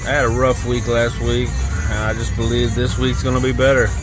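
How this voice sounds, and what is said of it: Rough, sick-sounding voice. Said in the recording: “I sound a little rough. I'm a little under the weather.”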